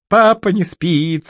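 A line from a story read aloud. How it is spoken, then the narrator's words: Child's joyful squeal. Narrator (Russian): радостно взвизгнула дитя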